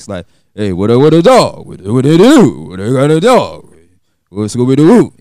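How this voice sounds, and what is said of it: Imitates another person's voice. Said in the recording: “my DMX impression, I may sound like DMX”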